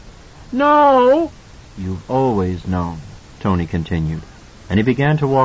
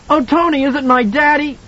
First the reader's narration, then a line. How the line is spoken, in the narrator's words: Danny screamed